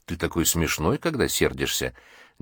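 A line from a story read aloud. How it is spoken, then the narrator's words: Soft girlish laugh. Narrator (Russian): девушка негромко рассмеялась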